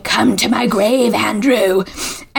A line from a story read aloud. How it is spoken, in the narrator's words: cackling and a voice saying